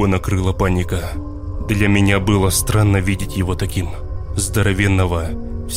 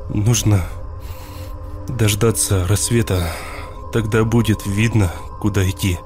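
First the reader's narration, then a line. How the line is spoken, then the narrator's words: Tearful. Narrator (Russian): сквозь слезы говорил он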